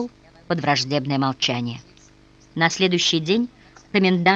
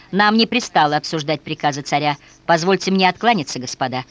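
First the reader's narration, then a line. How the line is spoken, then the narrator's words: Cold, irritated. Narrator (Russian): в раздражении, видимо, торопясь вернуться к себе, холодно сказал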